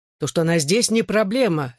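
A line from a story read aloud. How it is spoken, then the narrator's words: Barked. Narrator (Russian): рявкнул я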